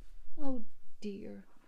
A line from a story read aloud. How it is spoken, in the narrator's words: sighed Laura